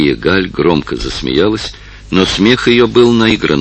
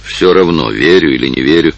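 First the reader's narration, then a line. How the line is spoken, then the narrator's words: Gloomy. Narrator (Russian): мрачно сказал Фултон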